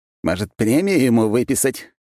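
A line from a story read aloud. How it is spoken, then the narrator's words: Restrained chuckle in earpiece. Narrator (Russian): сдержанно хохотнул в ухе Разумовский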